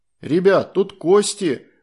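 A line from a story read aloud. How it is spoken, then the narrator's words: Shouting. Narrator (Russian): закричал он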